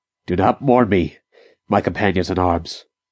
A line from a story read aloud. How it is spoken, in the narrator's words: he said